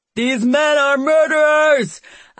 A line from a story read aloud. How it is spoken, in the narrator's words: I shout so loud that my throat feels like it's going to snap